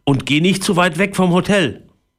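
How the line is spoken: Father calling after. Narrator (German): rief Papa nach

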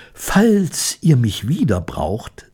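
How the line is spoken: Plain. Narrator (German): sagte Ramina

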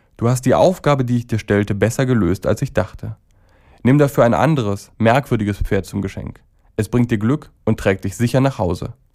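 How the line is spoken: Sad speech. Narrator (German): wurde sie sehr traurig und sprach

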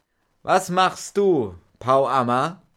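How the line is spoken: Loud call. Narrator (German): er rief laut

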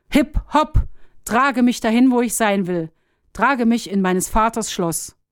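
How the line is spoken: Call. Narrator (German): rief

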